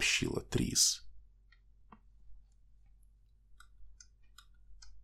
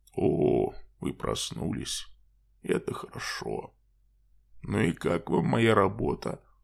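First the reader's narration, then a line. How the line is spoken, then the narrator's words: Calm friendly male voice. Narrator (Russian): спросил мужчина спокойным дружеским голосом Джаспера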